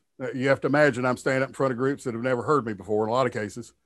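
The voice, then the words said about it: Slight Southern American drawl. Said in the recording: “you may have noticed a Southern, a little bit of a Southern drawl in my, my voice”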